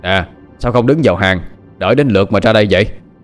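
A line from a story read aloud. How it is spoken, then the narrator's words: Loud shout. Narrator (Vietnamese): Tên đầu trâu quát lớn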